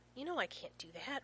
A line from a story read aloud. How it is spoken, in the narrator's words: Rodney hisses